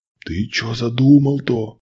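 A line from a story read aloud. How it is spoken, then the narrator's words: Whisper. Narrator (Russian): прошептал Щербатый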